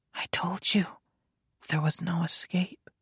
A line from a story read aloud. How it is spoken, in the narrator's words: she said gently, almost as if she pitied him